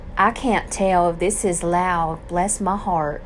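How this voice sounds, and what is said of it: Put-on Southern accent. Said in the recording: “talking in a southern accent”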